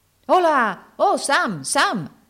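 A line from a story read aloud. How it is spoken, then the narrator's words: Shouted. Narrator (Italian): gridò allora Andy, interrompendo quel soliloquio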